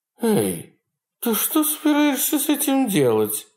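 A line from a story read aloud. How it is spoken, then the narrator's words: Giggling question. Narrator (Russian): спросила Кристина и хихикнула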